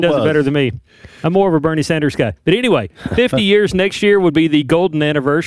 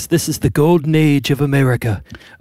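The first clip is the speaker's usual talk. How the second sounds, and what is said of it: Imitates another person's voice. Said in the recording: “much like Trump says ... That was a terrible impression.”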